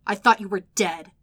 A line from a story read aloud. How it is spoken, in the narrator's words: Nicholas spat out